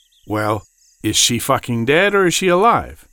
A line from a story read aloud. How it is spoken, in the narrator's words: He called out to anyone who might be able to give him an answer